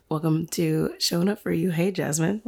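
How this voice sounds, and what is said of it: Deep morning radio voice. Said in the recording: “I feel like I have a radio voice this morning.”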